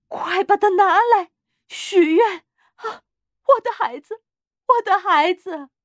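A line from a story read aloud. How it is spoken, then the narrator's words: Breathless. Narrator (Chinese): 他气喘吁吁地说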